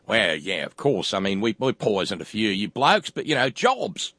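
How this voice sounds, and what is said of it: Put-on different accent. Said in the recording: “I've got the wrong accent here”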